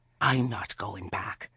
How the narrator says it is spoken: Agnes hissed

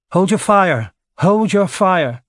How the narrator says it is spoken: Nikola called out in English

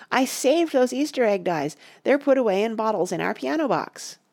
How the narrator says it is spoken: cried

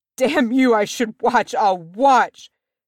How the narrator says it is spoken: cried

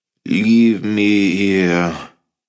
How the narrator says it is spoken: Luke groaned

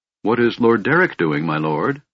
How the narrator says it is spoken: Michael asked

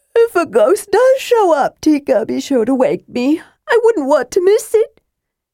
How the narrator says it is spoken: He added with another jaw-cracking yawn

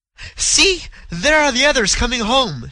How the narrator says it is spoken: she exclaimed with a note of relief

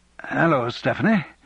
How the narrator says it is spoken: he said awkwardly

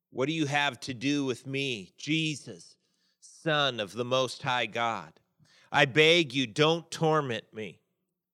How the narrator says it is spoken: said in a loud voice

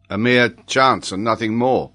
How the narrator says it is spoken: replied the quartermaster, looking firmly at the Major

